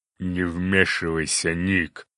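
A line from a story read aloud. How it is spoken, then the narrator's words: Growled. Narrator (Russian): прорычал циклоп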